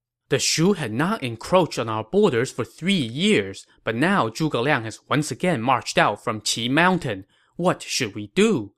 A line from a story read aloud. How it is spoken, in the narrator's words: Cao Rui asked